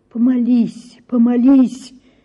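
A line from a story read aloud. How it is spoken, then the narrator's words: Pleading, begging voice. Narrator (Russian): говорил каким-то просящим умоляющим голосом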